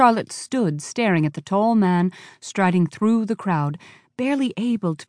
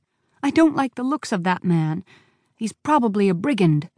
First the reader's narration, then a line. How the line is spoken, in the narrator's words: she pleaded balefully